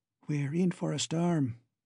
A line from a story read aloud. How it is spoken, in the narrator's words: whispered Boots